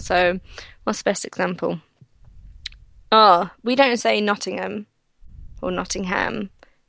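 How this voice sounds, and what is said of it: Polished British BBC-style accent. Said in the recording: “being like a BBC accent. Like, that's how I find yours, too ... When you think of, like, a British accent, that's kind of what I think of”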